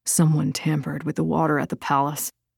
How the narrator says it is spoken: Dorina said softly

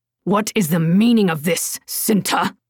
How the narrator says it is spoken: the man snarled

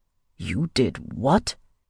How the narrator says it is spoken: his father growled

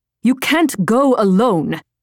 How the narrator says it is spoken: Sonia snapped

